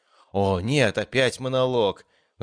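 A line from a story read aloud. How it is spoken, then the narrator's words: Sighing. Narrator (Russian): вздохнул я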